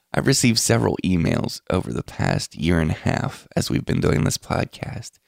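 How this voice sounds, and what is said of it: Quiet, odd-sounding late-night voice. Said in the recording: “I'm announcing it at about 4 a.m., so if I sound weird or like I'm trying to be a little bit quiet, that's why.”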